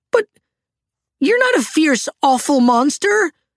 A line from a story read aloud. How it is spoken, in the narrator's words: Little Toot blurted out